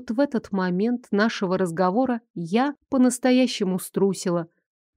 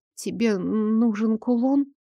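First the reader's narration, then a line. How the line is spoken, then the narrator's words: Trembling voice. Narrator (Russian): Дрожащим голосом высказала я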